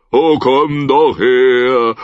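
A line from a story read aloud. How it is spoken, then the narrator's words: Called out. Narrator (German): rief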